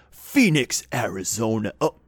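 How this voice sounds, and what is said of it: Put-on heavy metal American accent. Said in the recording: “he sort of says it in that heavy metal American accent voice... American accent... The American accent is hard on the voice”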